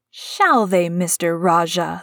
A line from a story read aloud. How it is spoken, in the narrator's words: said Mary fiercely